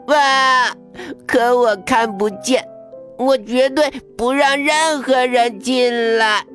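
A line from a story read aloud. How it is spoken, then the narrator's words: Anxious loud crying. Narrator (Chinese): 小猫头鹰急得哇哇大哭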